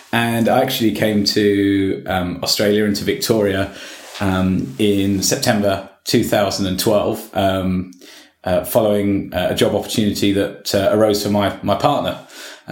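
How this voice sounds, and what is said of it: British accent. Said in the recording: “you can probably tell from my accent that I'm a Brit”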